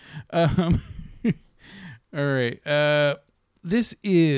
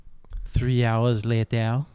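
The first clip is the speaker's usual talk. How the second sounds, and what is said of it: Put-on French accent. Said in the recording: “French accent.”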